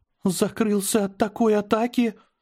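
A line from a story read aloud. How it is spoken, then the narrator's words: Trembling voice. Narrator (Russian): дрожащим голосом сказала Аня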